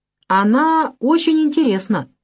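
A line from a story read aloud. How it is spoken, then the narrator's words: Loud, exaggerated delight. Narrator (Russian): громко сказала Наташа, нарочно подчеркивая свой восторг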